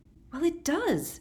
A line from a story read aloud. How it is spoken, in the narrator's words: she said impatiently